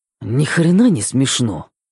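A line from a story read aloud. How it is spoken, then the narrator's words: Muttered. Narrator (Russian): пробормотал Мэтт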